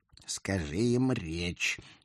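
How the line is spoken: Through gritted teeth. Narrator (Russian): сквозь зубы напомнил мой родственник

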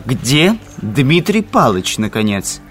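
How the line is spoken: Angry exclamation. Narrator (Russian): сердито воскликнул Пуришкевич

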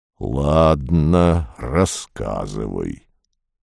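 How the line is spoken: Hoarse growl. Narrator (Russian): он прорычал хрипло

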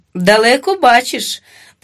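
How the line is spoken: Good-natured agreement, laughing. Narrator (Ukrainian): погодився без найменшої образи і теж засміявся своїм кривим ротом

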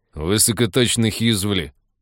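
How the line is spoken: Grumbling. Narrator (Russian): ворчал Михалыч

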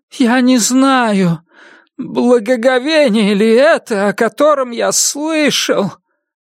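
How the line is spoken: Slow drawn-out exhale. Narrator (Russian): Кукла медленно и протяжно выдохнул

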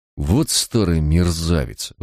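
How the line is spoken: Shocked, breathless exhale. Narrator (Russian): выдохнул бледный, как полотно, Барак

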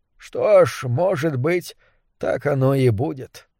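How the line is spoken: Mutter. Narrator (Russian): пробормотал он

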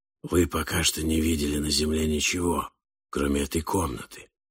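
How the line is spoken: Hoarse whisper. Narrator (Russian): хриплым шепотом сказал Синд по имени Крадж

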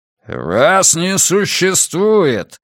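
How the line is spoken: Growling middle-aged man. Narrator (Russian): зарычал бородатый мужчина лет 50

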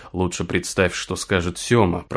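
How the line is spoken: Grumbled. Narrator (Russian): проворчал Син

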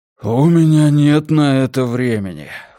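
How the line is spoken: Breathy exhale. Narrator (Russian): выдохнул Мунк

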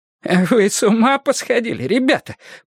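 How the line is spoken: Groaning. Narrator (Russian): простонал Иван Арнольдович

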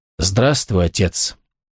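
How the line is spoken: Quiet. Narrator (Russian): тихо проговорил

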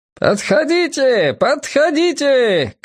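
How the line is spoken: Repeated shouting. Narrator (Russian): кричал он каждые несколько секунд

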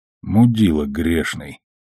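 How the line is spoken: Muttering under breath. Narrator (Russian): пробормотал себе под нос Амос

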